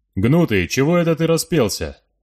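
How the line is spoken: Rough, serious voice. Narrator (Russian): сказали уже другим, более грубым и серьезным голосом

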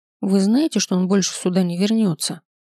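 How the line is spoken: Grim, curt. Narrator (Russian): Мрачно бросила она нам

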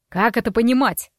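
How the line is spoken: Icy tone, father. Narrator (Russian): ледяным тоном поинтересовался отец

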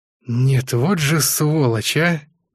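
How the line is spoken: Through gritted teeth. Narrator (Russian): процедил капитан третьего ранга

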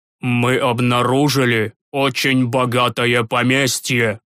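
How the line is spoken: Angry pronouncement. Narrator (Russian): Зло сверкнув глазами, изрек отец Флатис

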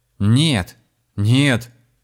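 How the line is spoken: Shout. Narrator (Russian): закричал Михаил

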